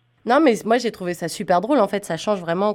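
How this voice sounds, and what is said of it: French accent from France. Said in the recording (French): “tu dois sûrement l'entendre à mon accent. Moi, je viens pas du Canada. Moi, je viens de mhm. France.”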